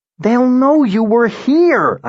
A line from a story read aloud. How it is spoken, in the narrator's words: I shouted